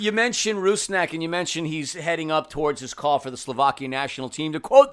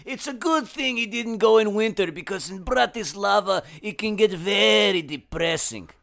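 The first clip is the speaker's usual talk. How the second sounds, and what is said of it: Put-on European accent. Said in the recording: “European accent”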